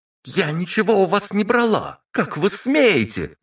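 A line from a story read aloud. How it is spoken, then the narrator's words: Indignant shout. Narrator (Russian): возмущенно выкрикнула Марина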